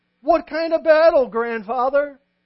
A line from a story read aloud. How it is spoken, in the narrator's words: Unable to control his curiosity, a second child blurted out